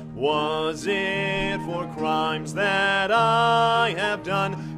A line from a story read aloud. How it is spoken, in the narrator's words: He groaned upon the tree